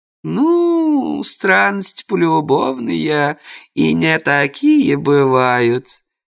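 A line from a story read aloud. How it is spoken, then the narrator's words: Knowing drawl. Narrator (Russian): понимающе протянула домохозяйка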